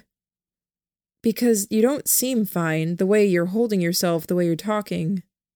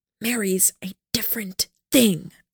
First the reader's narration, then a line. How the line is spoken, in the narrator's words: I said with a fierce whisper, my volume minimal